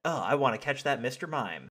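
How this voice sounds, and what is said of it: Imitates cartoon character Ash. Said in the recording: “your Ash impression”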